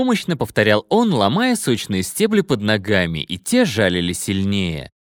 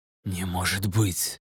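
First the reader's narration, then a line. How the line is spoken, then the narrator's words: Stunned whisper. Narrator (Russian): прошептал Эль, пораженный догадкой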